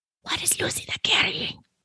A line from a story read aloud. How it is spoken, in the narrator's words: A woman whispered